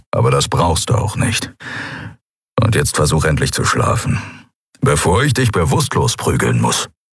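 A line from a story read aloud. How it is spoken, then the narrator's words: Grumbled. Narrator (German): brummte er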